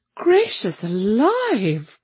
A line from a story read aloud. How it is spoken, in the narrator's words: cried Mrs